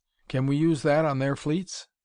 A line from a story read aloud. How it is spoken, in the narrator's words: he asked